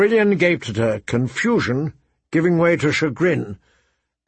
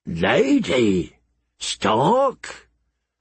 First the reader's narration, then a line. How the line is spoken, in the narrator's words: Masha Heddle said thickly